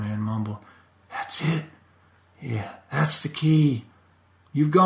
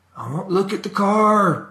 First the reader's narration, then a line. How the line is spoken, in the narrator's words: the old man yelled